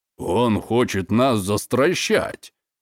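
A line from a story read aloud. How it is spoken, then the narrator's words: Scornful snort. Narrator (Russian): фыркнул Евгений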